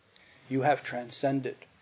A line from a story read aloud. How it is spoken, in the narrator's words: he said quietly